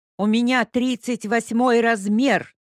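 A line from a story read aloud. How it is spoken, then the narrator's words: Stout woman shouting. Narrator (Russian): кричала дородная тетка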